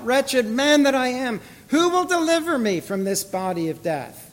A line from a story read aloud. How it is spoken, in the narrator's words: Paul cried out